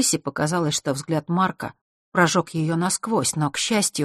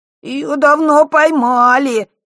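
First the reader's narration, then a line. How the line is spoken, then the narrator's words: Whiny reply. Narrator (Russian): плаксивым голосом отозвался Мишка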